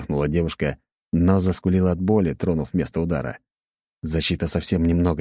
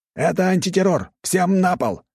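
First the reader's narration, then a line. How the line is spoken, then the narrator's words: Shouted by several fighters. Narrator (Russian): прокричали 6 бойцов с электрическими дубинками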